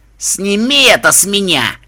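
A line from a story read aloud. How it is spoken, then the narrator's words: Muffled growl. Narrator (Russian): глухо прорычал Рок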